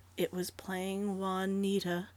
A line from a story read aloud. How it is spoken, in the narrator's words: Flora answered wearily